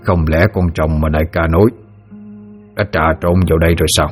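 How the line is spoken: Muttering. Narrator (Vietnamese): tên kia vừa lẩm bẩm

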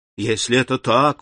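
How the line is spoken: Exclamation. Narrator (Russian): воскликнул Альбер

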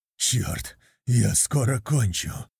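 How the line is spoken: Hoarse rasp. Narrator (Russian): Прохрипел я

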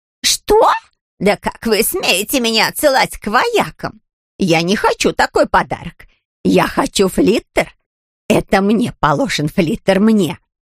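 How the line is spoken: Shrill, angry woman. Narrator (Russian): визгливый и гневный тон Матильды

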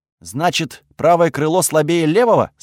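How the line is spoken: Plain. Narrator (Russian): спросил я

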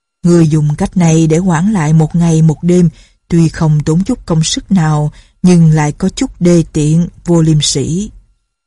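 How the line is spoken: Smiling. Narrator (Vietnamese): Phong Thanh Dương mỉm cười nói

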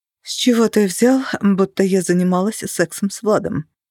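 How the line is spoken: Whisper. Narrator (Russian): Мне удалось проговорить это шепотом

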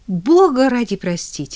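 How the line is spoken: Exclaimed. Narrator (Russian): воскликнула косметолог

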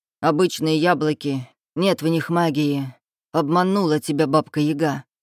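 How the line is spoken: Scoffing. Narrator (Russian): хмыкнул Кощей

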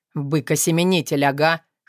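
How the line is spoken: Young man snorting. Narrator (Russian): хмыкнул парень

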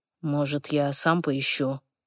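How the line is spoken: Barely audible. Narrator (Russian): Едва слышно

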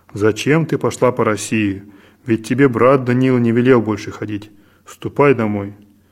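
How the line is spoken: Stern, threatening. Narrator (Russian): Отец Серафим грозно сказал ей

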